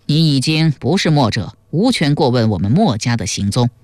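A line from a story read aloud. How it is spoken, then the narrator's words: Cold. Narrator (Chinese): 田鸠冷冷地说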